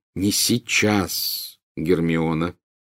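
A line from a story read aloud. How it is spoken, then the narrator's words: Grim, meaningful tone. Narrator (Russian): мрачным и многозначительным тоном произнес Гарри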